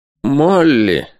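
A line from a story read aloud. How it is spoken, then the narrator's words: Forced out. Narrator (Russian): наконец выдавил из себя Сэм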